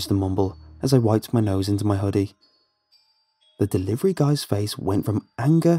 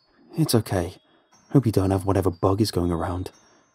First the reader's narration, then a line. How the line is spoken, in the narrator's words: he mumbled